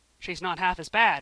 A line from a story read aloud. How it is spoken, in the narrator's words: said Alec solemnly